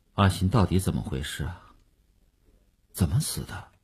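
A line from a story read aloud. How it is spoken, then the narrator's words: Sullen, muffled. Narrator (Chinese): 虽然声音还是闷着气的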